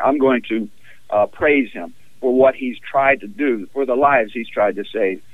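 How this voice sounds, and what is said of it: Texas accent. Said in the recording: “in case people can't tell from your accent, you are from Texas.”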